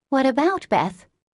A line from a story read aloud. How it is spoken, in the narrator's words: asked anxiously